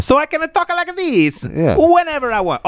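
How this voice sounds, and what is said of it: Mario-style Italian accent. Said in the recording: “Mario ... it's okay to do this accent”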